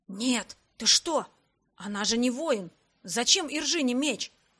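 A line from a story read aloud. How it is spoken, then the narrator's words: Whispered objection. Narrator (Russian): тоже шепотом возразил Эрик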